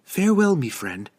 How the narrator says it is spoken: she cried

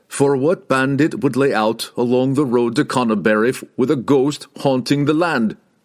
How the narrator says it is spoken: Wulfgar laughed

